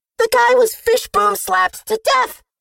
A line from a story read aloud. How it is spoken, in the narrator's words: she snapped back